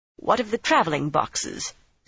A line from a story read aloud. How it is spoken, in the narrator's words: Savannah demanded curtly